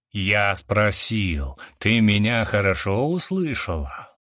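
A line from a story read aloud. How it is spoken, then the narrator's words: Angry growl. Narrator (Russian): гневно зарычал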